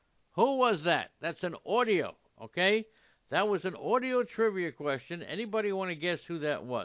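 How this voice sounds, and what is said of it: Usual voice. Nothing is said of it.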